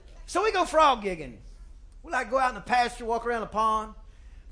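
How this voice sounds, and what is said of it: Thick regional accent. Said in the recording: “my accent gets thicker when I say things like frog gigging”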